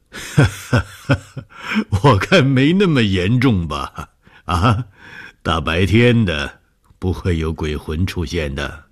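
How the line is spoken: Laughing. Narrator (Chinese): 笑了说

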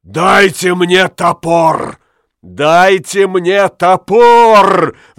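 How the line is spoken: Roar. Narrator (Russian): взревел Ламме

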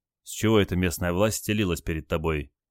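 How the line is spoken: Quiet question. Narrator (Russian): тихо спросил Олег

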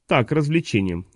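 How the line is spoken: Calm young woman. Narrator (Russian): спокойно ответила девушка

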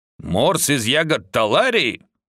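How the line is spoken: Growled. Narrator (Russian): рыкнул Тек

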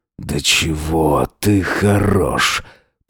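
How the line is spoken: Hoarse rasp. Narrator (Russian): прохрипел он

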